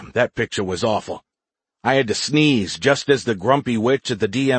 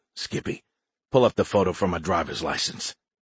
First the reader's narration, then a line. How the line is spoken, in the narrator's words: Into my Z-phone, I whispered